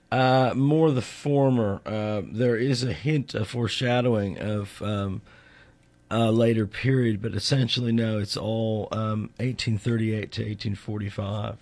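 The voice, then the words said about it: Slight Australian accent. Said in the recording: “With a slight Australian accent”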